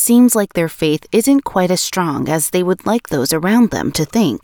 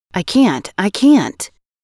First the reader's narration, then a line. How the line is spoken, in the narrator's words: He repeatedly exclaimed